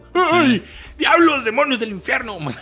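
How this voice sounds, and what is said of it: Grumpy old man voice. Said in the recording (Spanish): “lo hace sonar como un viejo cascarrabias, un viejo ... como un viejo viejo”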